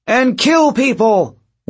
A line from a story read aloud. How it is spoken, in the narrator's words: one of them shouted